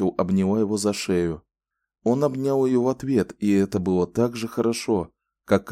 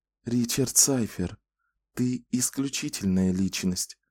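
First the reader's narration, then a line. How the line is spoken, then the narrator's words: Whisper. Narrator (Russian): шепнула она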